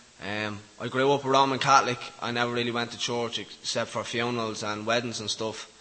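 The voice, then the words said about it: Dublin Irish accent. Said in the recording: “you probably know from my accent, I'm from Dublin”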